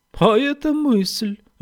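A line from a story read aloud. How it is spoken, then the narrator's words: Exclaiming. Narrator (Russian): воскликнул Конни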